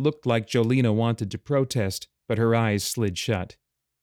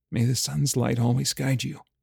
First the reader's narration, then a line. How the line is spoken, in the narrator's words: whispered